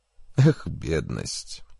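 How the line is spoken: Sighing. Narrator (Russian): вздохнул Джек

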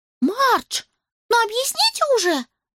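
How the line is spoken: Pleading. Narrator (Russian): взмолилась Роуз

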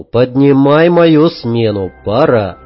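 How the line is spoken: Calm. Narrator (Russian): спокойно сказал

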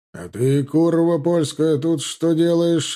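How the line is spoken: Growled mid-fight. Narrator (Russian): отбивая сабельный удар, прорычал

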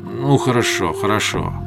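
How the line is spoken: Muttered with a sigh. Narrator (Russian): пробормотал Асра и вздохнул

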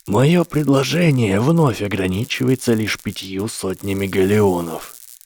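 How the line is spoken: Cold formal tone. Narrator (Russian): более холодным и официальным тоном проронил мужчина

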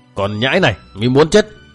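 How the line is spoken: Monk's scolding shout. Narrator (Vietnamese): Tên phiên tăng đã đổi giọng quát mắng

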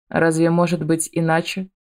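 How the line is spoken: Haughty tone. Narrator (Russian): Аяр говорит это надменным тоном

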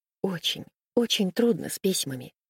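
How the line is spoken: Quiet. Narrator (Russian): сказала она тихо

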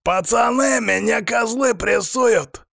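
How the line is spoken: Yelling while struggling. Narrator (Russian): заорал он, пытаясь вывернуться

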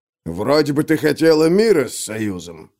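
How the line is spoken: Grumbling. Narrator (Russian): пробурчал черствый

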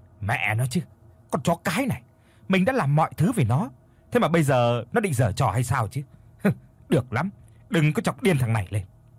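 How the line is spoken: Irritated snap. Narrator (Vietnamese): Có một chút bực bội, anh gắt lên

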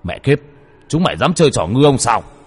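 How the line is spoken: Shouting. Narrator (Vietnamese): Đồ Lương hét lên

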